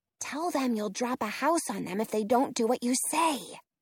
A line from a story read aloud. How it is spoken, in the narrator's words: I whisper